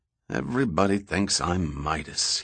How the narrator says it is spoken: he grumbled

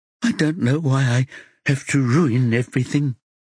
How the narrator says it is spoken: she sobs

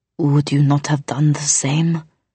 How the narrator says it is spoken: He asked, his voice strained

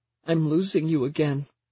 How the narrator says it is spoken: Genevieve cries

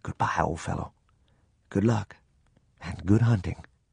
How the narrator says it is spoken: I whispered these words

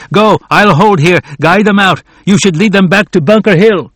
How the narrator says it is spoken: Warren shouted at Prescott

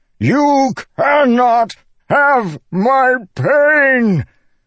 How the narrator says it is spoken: Dalinar bellowed

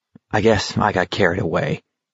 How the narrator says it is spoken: Garrity muttered

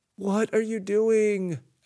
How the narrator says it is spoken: Alec cried

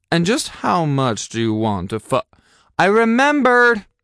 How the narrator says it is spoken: I said quite loudly

